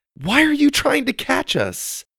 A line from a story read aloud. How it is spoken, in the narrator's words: Suzie asked desperately